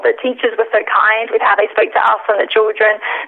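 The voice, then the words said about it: Australian accent. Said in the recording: “I'm originally from Australia. ... I love the accent.”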